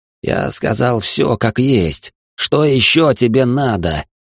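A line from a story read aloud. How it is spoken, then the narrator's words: Resigned forced words. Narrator (Russian): обреченно выдавил игрок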